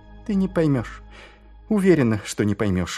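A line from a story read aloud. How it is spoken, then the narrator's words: Sighing. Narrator (Russian): вздохнула Ангва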